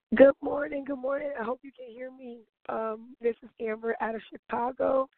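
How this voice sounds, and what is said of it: Hoarse, strained voice. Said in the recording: “I was screaming so loud and cheering ... I lost my voice.”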